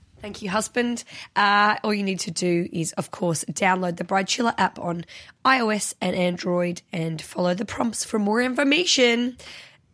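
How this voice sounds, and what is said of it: Sick, strained voice. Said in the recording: “Sorry about my voice,... I'll get better soon, hopefully.”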